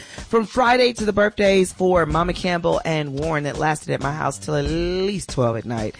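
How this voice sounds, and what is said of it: Hoarse voice. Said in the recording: “hear in this hoarse voice of mine that I've been talking all weekend”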